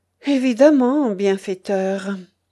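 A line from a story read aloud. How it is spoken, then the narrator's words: Old man sighing. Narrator (French): soupira le grand-père Arkhip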